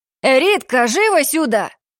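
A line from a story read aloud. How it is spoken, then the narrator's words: Shouting woman. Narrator (Russian): Прокричала мадам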